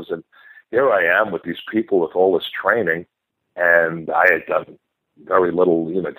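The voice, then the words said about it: Mixed New York-Boston accent. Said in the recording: “this mixed-up New York-Boston accent, you know, a little Boston from Massachusetts”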